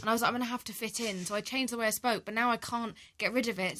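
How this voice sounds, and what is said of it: Posh English accent. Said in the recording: “used to speak with a Cockney accent? Now, you're posh ... I'm faux posh”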